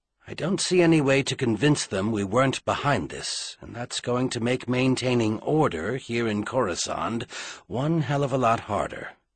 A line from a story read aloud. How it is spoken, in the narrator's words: Merlin said grimly